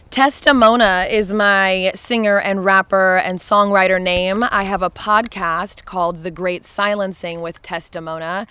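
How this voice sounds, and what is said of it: Hoarse, strained voice. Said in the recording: “my voice is kind of blown out because I was doing a lot of singing and rapping last night”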